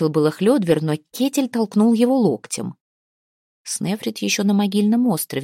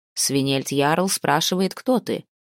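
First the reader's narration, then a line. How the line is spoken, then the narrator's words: Plain. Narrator (Russian): сказал ей Асвард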